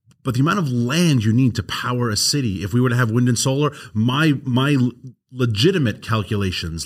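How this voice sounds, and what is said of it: New York accent. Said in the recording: “I'm from New York. Your audience can hear my accent. I'll never lose it”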